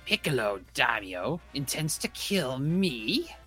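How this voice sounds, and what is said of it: Emotional cartoon villain voice impression. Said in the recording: “my cell impression. ... You put more emotion into it.”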